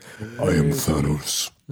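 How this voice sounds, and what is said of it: Very deep Thanos voice. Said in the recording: “I also expected Thanos' voice to be the most sub base thing to be in the universe ... my deep voice thing”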